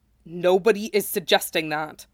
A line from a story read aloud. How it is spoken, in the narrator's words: Sephiroth said sharply